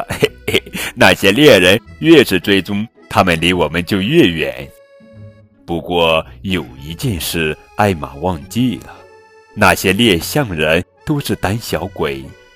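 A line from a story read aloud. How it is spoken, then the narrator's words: Laughing. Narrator (Chinese): 艾玛哥哥笑着说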